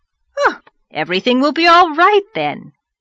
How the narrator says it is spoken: cried the rosy lady jubilantly

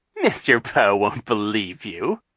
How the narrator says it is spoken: Captain Sham said, chuckling

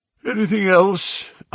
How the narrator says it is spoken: asked Holmes, yawning

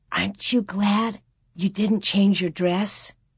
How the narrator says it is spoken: Carrie's eyes were shining, stood tiptoe to whisper

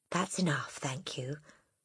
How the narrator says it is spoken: the boy murmured

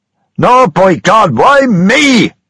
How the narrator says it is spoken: shouted James Kelly

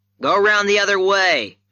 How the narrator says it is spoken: I shouted

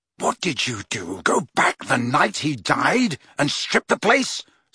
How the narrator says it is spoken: snarled Harry

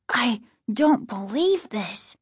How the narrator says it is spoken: Casey said quietly, his voice trembling

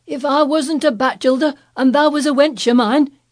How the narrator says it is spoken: he cried

